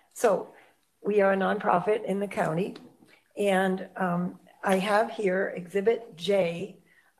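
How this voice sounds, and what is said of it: Hoarse voice. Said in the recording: “I'm very hoarse, so excuse me.”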